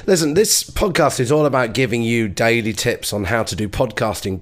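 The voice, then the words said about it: Croaky voice. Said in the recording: “this like croak in my voice ... I've got a cold ... croaky voice”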